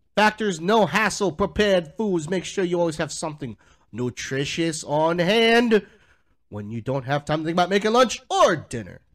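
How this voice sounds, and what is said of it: Speaks in a put-on accent. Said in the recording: “Why are you using that accent?”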